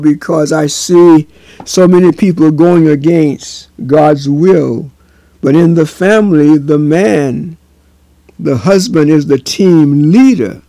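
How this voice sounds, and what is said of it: Raised, louder voice. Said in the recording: “I am raising my voice now”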